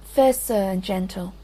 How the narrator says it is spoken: she said

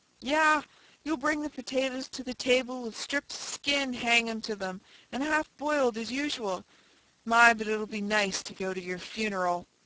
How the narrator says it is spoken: shrieked Mary

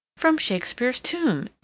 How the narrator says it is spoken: exclaimed Mrs

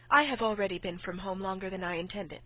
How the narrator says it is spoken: said she

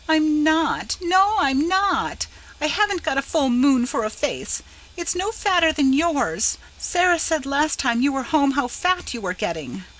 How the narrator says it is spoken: At Laura's brutal statement of the truth, she cried bitterly

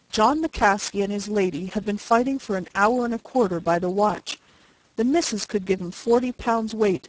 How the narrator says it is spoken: he exclaimed

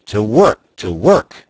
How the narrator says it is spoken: I had myself a vague hope of success that encouraged me, and I cried out

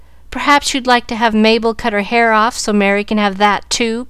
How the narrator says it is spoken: cried Susie, with whom hair was a tender point

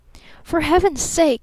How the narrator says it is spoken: he cried

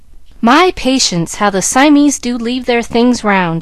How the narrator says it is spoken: she exclaimed

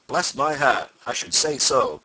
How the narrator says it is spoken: cried Mr

